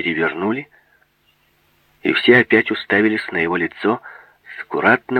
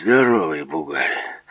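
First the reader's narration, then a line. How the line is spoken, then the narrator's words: Grumbling orderly. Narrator (Russian): пробурчал один из санитаров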